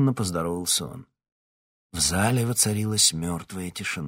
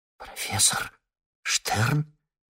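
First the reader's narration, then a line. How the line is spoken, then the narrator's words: Shocked breathless gasp. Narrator (Russian): потрясенно выдохнула Ирма Морозова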